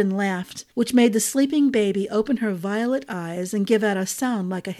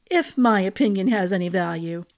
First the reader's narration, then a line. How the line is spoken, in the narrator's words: Elise said with a chuckle